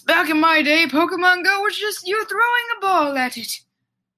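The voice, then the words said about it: Old man voice. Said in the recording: “my old man impression. Sorry, everybody, if it's horrible.”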